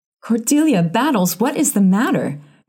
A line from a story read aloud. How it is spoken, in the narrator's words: cried Mrs